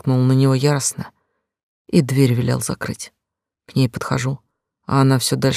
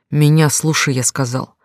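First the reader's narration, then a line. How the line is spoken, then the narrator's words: Bark. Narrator (Russian): Рявкнул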